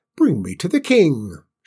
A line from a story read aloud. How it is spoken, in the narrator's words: snapped